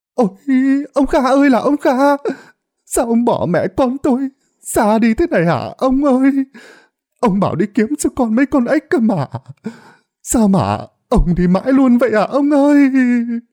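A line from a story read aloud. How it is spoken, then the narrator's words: Wailing, sobbing woman. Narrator (Vietnamese): vợ lão ấy, bà ta òa khóc nức nở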